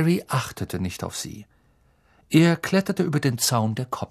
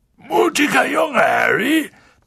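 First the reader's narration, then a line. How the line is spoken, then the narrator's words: Gruff booming. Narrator (German): polterte Hagrid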